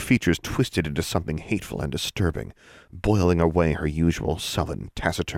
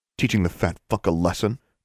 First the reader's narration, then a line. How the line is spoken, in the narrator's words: Penny snarled